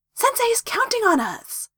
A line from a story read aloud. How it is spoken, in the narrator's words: Naruto said excitedly